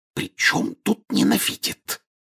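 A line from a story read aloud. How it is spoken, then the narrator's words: Angry whisper. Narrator (Russian): сердитым шепотом возразила миссис Уизли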